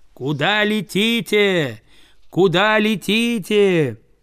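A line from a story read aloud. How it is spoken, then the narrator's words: Miner shouting. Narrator (Russian): рудокопы бросили бурить скважины для взрывчатки, а один из них закричал птицам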